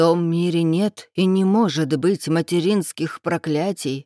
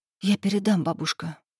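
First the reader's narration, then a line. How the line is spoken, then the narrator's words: Whisper. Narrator (Russian): прошептала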